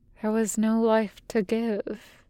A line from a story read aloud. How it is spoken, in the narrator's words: Sabo murmurs